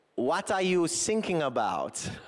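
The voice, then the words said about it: Weak put-on German accent. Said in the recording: “my German accent's not that strong. I'll give it a go though.”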